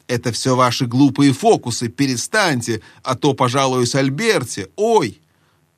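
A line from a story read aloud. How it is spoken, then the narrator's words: Yelping cry. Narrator (Russian): Люся и Эдмунд ... в тот миг, как заойкал Юстас, они тоже крикнули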